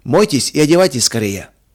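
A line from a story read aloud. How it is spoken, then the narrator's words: Calm and loud. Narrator (Russian): сказал он спокойно и громко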